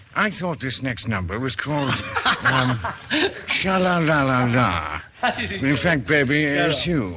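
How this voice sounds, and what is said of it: James Mason impersonation. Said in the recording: “your famous James Mason impersonation voice ... Very good.”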